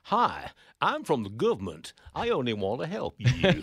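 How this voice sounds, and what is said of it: Poor attempt at American accent. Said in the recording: “That was an appalling attempt at an American accent.”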